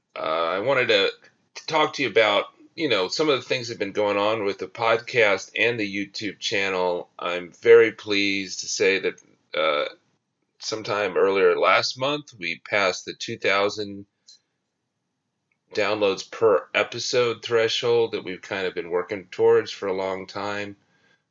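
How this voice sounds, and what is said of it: Voice rough from a cold. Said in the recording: “I apologize for my voice. I am coming off a cold, and so it's not 100%.”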